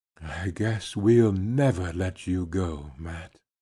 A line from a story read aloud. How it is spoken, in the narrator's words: he whispered